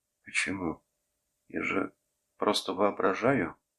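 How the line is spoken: Quiet answer. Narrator (Russian): тихо ответил Хидзуру

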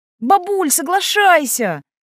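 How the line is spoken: Yelling. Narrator (Russian): завопил Ян

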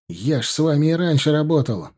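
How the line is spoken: Shouting. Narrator (Russian): закричал Вадим на своего командира

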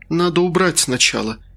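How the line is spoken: Sighing, holding back nausea. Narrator (Russian): вздохнула я, сдерживая очередной позыв

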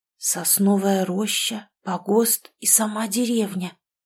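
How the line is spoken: Bewildered whisper. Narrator (Russian): растерянно прошептал Семен

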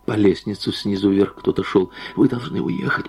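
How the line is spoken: Whisper. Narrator (Russian): продолжала Анна Сергеевна шепотом

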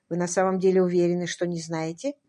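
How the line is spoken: Very soft yet insistent. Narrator (Russian): очень мягко и вместе с тем настойчиво спросила

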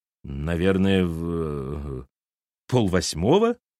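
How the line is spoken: Forced out, strained. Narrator (Russian): выдавила она

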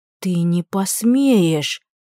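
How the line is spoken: Hoarse rasp. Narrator (Russian): просипела

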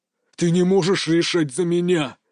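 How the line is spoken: Growled. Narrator (Russian): зарычал Дмитрий

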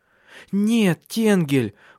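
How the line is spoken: Pleading. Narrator (Russian): взмолилась Силия

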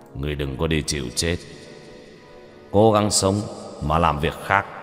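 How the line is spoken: Ghost realm master, cold. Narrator (Vietnamese): chủ nhân quỷ vực lạnh lùng

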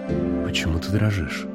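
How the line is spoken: Close, intimate whisper. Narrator (Russian): прошептал Уит мне в волосы

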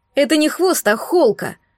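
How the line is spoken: Snapped back. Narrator (Russian): огрызнулся парень

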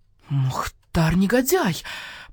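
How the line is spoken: Hissed. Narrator (Russian): прошипел барсукот

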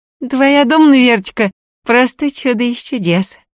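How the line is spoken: Joyful. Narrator (Russian): радостно сообщила она

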